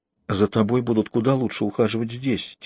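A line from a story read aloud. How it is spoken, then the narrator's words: Quiet. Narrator (Russian): тихо сказала Жанна Исааку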